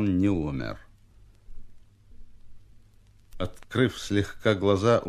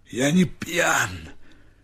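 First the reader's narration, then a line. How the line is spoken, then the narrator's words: Hoarse. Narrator (Russian): хрипло ответил Степа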